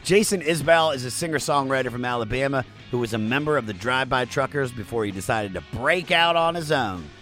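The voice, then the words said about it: Maryland accent. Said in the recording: “It's my Maryland accent.”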